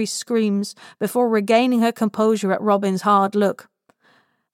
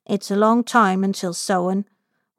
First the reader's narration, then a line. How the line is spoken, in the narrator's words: Robin murmurs